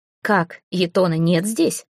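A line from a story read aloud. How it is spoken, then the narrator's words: Mocking question. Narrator (Russian): насмешливо спросил у него Жировит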